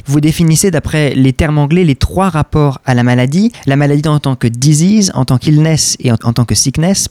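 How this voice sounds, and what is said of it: French-accented English words. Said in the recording (French): “pardon pour euh, mon accent anglais”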